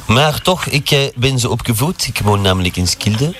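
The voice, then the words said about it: Put-on French accent in Dutch. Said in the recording (Dutch): “ik heb een Franse accent”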